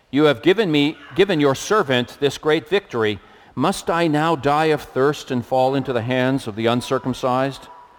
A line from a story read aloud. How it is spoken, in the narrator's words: Because he was very thirsty, he cried out to the Lord